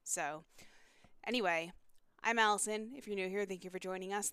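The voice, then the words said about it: Congested, sick-sounding voice. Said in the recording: “I'm a little bit sick this week ... I have a head cold.”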